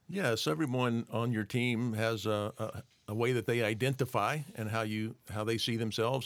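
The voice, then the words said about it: Southern US accent. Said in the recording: “I'm from the southern U.S. ... You may be able to hear that in my voice.”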